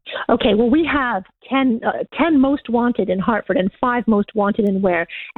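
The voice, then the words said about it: Canadian accent. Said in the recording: “your lovely accent ... I'm originally from Canada.”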